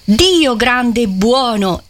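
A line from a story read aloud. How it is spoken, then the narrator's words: Cardinal's exclamation. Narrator (Italian): esclamò Federico, il cardinale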